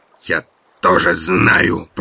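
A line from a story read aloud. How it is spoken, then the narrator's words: Angry hiss. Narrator (Russian): прошипел Оттор, сжимая кулаки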